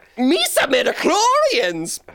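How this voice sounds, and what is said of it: Jar Jar Binks voice impression. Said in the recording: “Jar Jar ... His accent gets stronger.”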